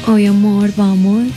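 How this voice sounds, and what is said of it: Put-on Paisa Colombian accent. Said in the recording (Spanish): “usted me responde en acento paisa”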